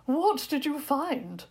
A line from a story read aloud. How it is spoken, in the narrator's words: asked Prince Victor eagerly